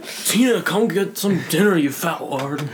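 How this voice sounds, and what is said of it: Imitates Napoleon Dynamite's voice. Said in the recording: “my impression of God, Napoleon Dynamite”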